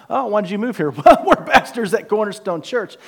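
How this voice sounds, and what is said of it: Rural country accent. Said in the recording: “you can use it till you lose that accent ... Okay, country boy.”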